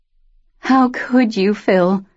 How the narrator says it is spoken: Shelby whimpered

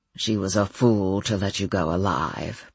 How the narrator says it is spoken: Bernard murmured

